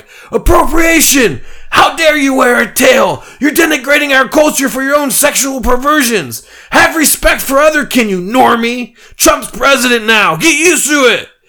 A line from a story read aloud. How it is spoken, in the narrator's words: crowd of furries screaming